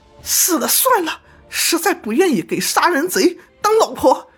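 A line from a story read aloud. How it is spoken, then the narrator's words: Woman crying out, beaten. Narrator (Chinese): 王十八就打那女人，女的喊了起来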